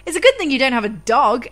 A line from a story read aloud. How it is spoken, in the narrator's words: Anna said brightly